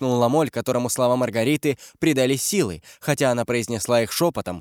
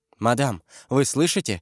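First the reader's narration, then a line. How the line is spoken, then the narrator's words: Frightened question. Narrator (Russian): испуганно спросила Жиона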